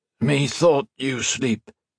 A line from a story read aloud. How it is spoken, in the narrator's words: he replied in mangled French, his voice terribly hoarse